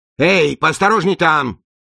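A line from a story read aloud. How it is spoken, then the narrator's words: Yelling. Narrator (Russian): заорал он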